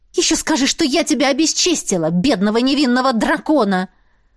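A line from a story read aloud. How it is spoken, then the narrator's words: Growl. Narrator (Russian): Рыкнула я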